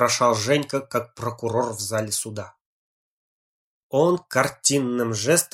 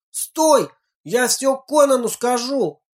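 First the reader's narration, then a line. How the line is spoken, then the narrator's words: Shouting after someone. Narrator (Russian): крикнул ему вдогонку Женька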